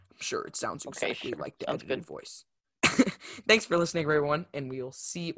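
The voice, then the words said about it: Deliberately deep low-pitched voice. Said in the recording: “I hope you liked the deep voice ... I'm just talking very deep like this.”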